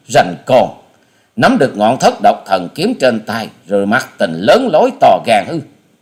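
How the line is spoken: Sneering. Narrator (Vietnamese): Hà Xà tiên tử nhếch môi cười khẩy

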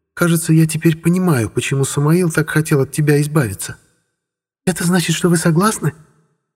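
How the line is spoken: Joyful squeak. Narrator (Russian): радостно пискнула эльфийка

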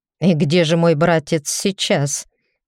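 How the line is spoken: Wry snort. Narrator (Russian): Мой работодатель хмыкнул

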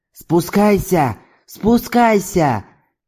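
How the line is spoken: Hoarse pleading, threatening shout. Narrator (Russian): крикнул чернобородый, хрипло умоляя и угрожая в то же время

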